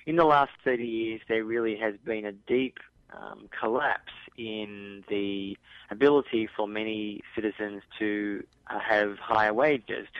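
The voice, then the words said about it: Australian accent. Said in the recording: “I'm from Australia, people can probably recognise my accent”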